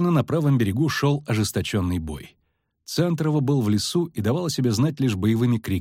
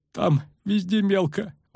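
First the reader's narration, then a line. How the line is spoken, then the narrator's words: Breathed out. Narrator (Russian): выдохнул паромщик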